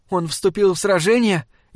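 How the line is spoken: Frightened question. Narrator (Russian): испуганно спросила Варшева

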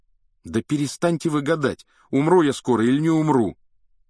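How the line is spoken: Sudden involuntary exclamation. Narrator (Russian): вдруг воскликнул Гарри неожиданно для самого себя

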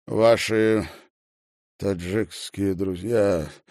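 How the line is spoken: Strained, reluctant. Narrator (Russian): выдавил он наконец

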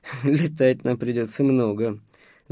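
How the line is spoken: Laughing. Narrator (Russian): засмеялся он

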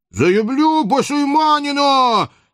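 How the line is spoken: Ashamed childish falsetto howl. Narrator (Russian): Не своим, то есть детским фальцетом взвыл багровый от стыда Иван Кочуев

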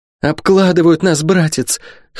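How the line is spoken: Hoarse voice. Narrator (Russian): хрипло проговорила

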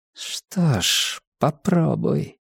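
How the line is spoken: Hissed through bared teeth. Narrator (Russian): процедила Инеж, оскалив зубы

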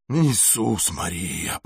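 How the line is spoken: Groaning. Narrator (Russian): простонал Барнс

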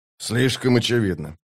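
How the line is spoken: Muttered. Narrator (Russian): пробормотал Скворец

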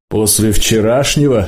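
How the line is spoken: Roaring with laughter. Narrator (Russian): Стужа оглушительно захохотал

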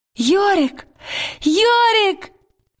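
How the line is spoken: Joyful cry. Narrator (Russian): Лира радостно вскрикнула

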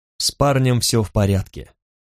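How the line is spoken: Dry. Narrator (Russian): сообщил Руал сухо

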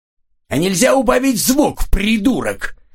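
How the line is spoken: Harsh bark. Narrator (Russian): рявкнул чей-то голос

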